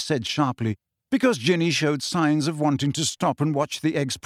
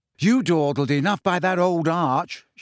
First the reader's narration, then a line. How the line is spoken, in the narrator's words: she said crossly